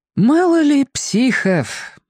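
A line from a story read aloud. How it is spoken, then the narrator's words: Breathed out, aunt. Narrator (Russian): выдохнула тетя Лена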